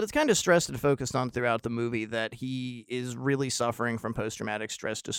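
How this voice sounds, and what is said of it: Usual voice. Nothing is said of it.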